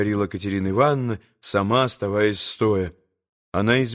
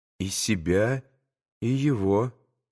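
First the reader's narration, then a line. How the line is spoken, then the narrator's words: Quiet. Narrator (Russian): проговорил тихо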